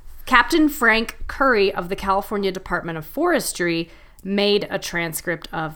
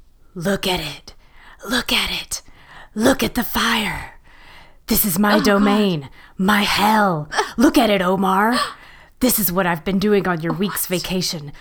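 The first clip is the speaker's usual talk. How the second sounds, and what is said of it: Raspy whispering voice. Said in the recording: “whispering commentary in a raspy voice ... He sounds like this.”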